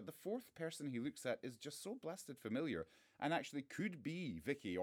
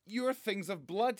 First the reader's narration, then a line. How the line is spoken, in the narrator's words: he yells